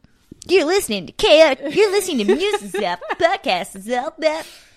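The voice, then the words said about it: Over-enthusiastic radio DJ voice. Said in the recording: “a puker, a jock who talks as if he's about to throw up ... that like radio DJ voice”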